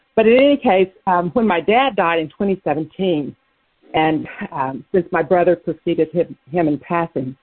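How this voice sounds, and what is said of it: Out of breath, panting while talking. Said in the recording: “I'm out of breath. I'm running up the stairs now.”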